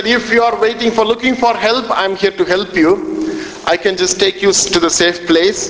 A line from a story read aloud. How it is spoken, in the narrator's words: the man, he cried out and he said